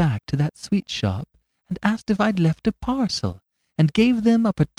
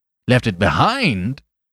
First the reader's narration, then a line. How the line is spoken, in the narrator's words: repeated Flambeau, and for the first time there was another note in his voice beside his triumph